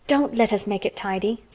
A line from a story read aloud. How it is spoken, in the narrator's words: said Mary anxiously